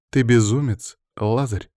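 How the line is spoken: Sigh. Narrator (Russian): вздохнула Мира

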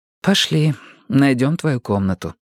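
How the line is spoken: Plain. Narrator (Russian): сказала она

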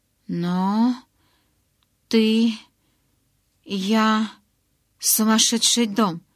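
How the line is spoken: Stammering blurt. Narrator (Russian): заикаясь, выпалила я

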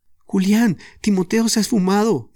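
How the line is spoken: Sorrowful exclamation. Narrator (Spanish): exclamó Jorge compungida

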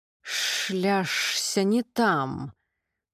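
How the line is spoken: Hissing speech-like voice. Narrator (Russian): Шипение, напоминающее членораздельную речь

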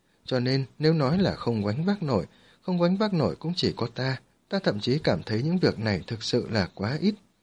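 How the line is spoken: Laughing while speaking. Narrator (Vietnamese): Quân Mạc tà bật cười nói

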